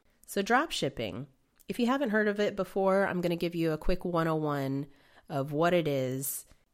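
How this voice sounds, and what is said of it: Slightly nasal, recovering voice. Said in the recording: “I lost my voice. You might still hear I'm a little bit more nasal than I usually am.”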